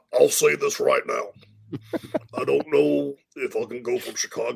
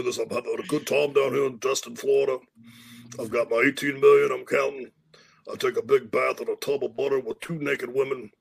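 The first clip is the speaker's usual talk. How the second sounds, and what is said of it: Imitates another person's voice. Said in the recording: “your Coach Orgeron impression”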